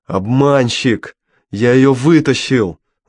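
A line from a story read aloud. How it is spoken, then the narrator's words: Shouting. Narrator (Russian): закричал Мао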